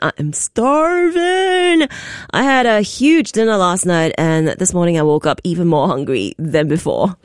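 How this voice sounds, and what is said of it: Slightly raspy voice. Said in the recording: “my voice is a little bit raspy”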